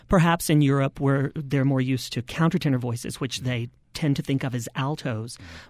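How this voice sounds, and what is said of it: High-pitched male speaking voice. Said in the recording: “you can hear in my speaking voice that it sits pretty high”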